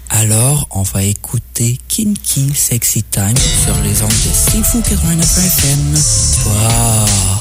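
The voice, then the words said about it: Sexy, seductive voice. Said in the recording (French): “tu veux faire une voix sexy”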